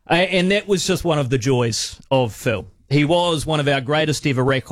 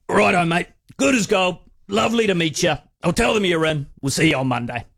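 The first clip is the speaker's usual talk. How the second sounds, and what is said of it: Imitates another person's voice. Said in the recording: “try my best Phil Gifford impression. It's going to be terrible”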